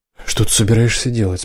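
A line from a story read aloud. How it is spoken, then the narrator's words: Frightened question. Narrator (Russian): спросил Колдор испуганно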